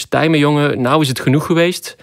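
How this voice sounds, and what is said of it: Good put-on Dutch accent. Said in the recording (Dutch): “Wat een goed Nederlands accent”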